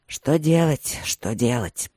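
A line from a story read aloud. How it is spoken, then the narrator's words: Strained grumble. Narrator (Russian): проворчал Линмор с усилием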